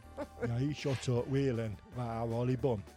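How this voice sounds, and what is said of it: Put-on northern English accent. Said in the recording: “If you stop trying to have an accent every time you say something ... That was a northern. ... From Lancaster.”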